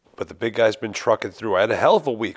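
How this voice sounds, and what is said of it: Weak, sick-sounding voice. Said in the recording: “This is my flu game. ... You could hear it. I'm sure this is going to sound terrible. My voice sounds weak.”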